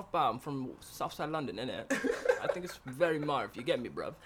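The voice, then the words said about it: Put-on British London accent. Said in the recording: “Stop doing your British accent ... your British accent ... Sucks. ... It's actually not bad.”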